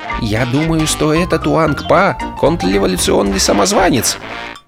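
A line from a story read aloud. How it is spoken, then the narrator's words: Quiet. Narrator (Russian): проговорил он тихо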